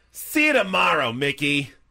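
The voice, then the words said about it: New York accent impression. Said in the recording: “That was an identical New York accent, by the way. Nailed it. God, nailed it.”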